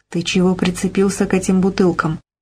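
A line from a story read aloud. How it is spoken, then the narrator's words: Whispered question. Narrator (Russian): шепотом спросила Полина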